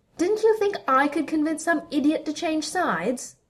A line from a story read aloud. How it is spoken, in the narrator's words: She shouted down at him